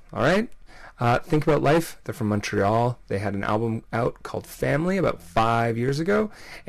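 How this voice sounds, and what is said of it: Tired-sounding voice. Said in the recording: “maybe I sound kind of tired.”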